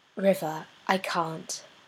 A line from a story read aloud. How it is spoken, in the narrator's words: she sighs